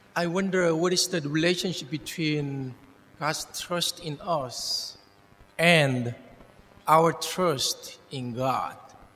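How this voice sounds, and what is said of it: Non-American English accent. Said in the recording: “non-American English accent”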